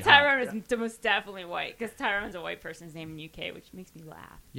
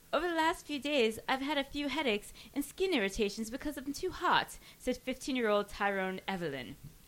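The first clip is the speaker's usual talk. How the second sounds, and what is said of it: Attempted British accent. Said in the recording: “I'm going to try to do my British accent right now.”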